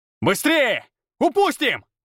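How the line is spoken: Yelling. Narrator (Russian): орал я

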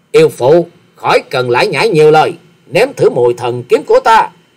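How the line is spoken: Furious loud bark. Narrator (Vietnamese): Hoa Sĩ Kiệt trợn trừng nạt to nói

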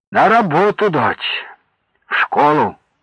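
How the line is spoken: Tender, careful enunciation. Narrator (Russian): Сергей как-то бережно, ласково выговаривал каждое слово

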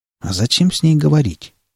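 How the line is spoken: Quiet question. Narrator (Russian): тихо спросил Малдер

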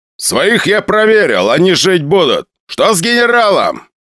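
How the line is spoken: Loud question. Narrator (Russian): громко спросил Буханкин

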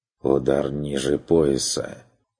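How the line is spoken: Gloomy remark. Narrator (Russian): заметил Бруно мрачно

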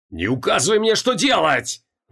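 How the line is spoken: Angry roar. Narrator (Russian): взревел Криол чернее лицом

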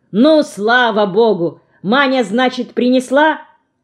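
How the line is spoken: Loud speech. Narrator (Russian): Стефа всегда говорит громко

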